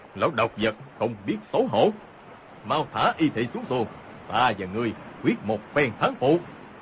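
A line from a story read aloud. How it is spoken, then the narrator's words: Shouting. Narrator (Vietnamese): Hồng Thất Công quát lên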